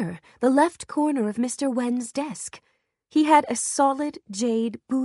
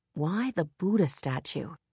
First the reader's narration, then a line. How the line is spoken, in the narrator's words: She murmured out loud, more to herself than anyone